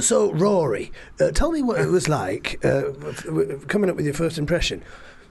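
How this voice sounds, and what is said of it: Imitates another person's voice. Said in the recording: “that was an impression of Michael Parkinson”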